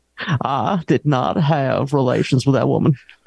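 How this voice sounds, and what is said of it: A good impression of someone. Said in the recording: “good impression, good impression.”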